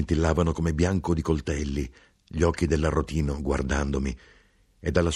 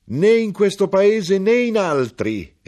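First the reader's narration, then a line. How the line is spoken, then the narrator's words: Shouted. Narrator (Italian): egli gridò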